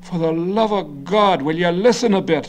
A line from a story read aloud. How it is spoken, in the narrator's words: Garvey cried, his combative face reddening further